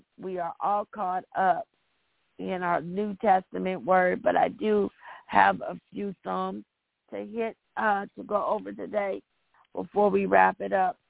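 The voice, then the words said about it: Hoarse voice. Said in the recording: “my hoarse voice today”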